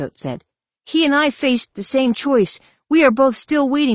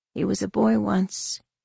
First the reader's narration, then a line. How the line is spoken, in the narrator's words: Mara said softly